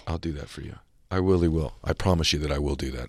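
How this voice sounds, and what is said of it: Emotional, voice wavering. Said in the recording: “I'm getting emotional.”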